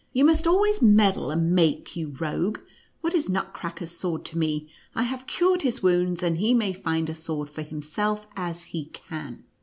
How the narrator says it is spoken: replied the counsellor angrily

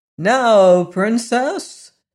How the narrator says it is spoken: exclaimed the wizard

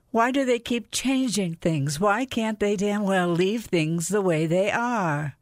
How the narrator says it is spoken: somebody else cried out

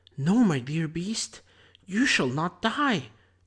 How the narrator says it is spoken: exclaimed Beauty

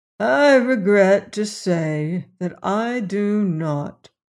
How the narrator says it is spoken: he answered sadly

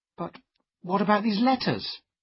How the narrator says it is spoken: I cried

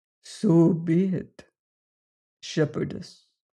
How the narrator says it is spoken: said Soa solemnly

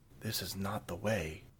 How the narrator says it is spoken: she leaned forward and whispered

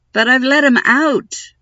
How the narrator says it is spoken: Moomin Troll cried

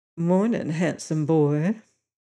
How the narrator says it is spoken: Lila … with an infinitely seductive sidelong glance and murmured

